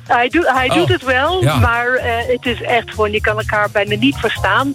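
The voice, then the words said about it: Slight Irish accent in Dutch. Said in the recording (Dutch): “Ik hoor ook een klein accent in jouw stem. Het klinkt bijna alsof je Amerikaans bent... Nee, ik ben Iers... Oh, Iers. Au, vandaar het accent.”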